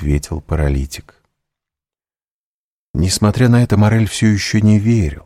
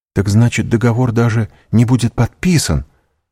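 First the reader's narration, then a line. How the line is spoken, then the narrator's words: Exclamation. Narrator (Russian): воскликнул Морель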